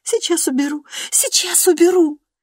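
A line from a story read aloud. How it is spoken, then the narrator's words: Trembling, sobbing. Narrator (Russian): Дрожа и всхлипывая, она повторяла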